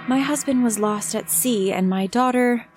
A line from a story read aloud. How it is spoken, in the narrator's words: Laura's face looked blank as she responded in a faraway voice